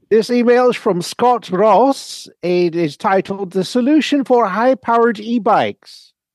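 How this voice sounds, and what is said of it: Put-on Dutch accent. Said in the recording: “the hardest accent you've tried ... if you want me to ... In the accent, I happen to speak Dutch”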